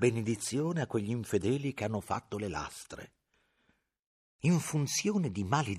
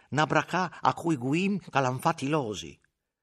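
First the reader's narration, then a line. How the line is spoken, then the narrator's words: Heartfelt exclamation. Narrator (Italian): esclamò dal profondo del cuore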